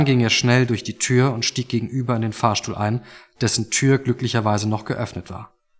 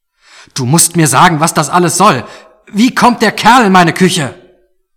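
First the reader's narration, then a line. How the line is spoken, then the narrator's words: Shouting back. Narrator (German): Toni … schrie zurück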